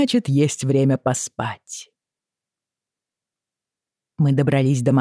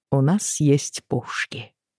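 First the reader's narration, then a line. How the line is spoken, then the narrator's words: Quiet. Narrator (Russian): тихо произнес он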